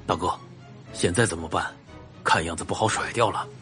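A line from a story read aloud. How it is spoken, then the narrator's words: Low voice. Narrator (Chinese): 另一个黑衣男人跟领头的男子低声说道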